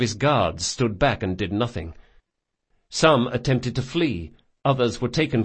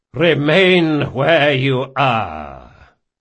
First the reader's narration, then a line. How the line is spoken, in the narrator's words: boomed a voice with an air of assured command